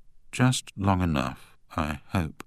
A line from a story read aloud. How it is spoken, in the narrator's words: murmured Sir Matthew